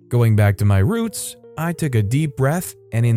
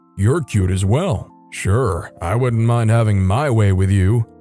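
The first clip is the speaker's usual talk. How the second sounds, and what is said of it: Very deep masculine voice. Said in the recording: “in the most deep, masculine voice I could muster”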